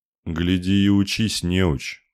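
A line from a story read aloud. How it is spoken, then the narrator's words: Grumbling. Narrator (Russian): проворчал посох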